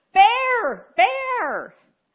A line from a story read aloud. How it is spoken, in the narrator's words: a woman in her car driving towards us, screaming at the top of her lungs